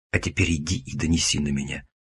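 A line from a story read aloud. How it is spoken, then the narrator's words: Gloating hiss in ear. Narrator (Russian): Злорадно зашипел я ему в ухо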